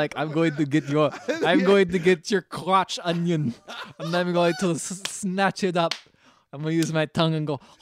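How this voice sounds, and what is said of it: Put-on Russian accent. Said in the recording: “I don't know why he's Russian now ... In my past life, I was Russian, so I speak like this.”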